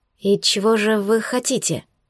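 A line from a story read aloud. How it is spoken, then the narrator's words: Quiet frightened question. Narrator (Russian): спросила тихо, испуганных глаз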